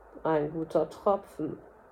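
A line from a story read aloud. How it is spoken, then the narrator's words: Suggestive, insinuating voice. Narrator (German): sprach mit anzüglicher Stimme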